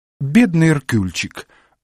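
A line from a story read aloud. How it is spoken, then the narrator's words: Sobbing. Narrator (Russian): всхлипнула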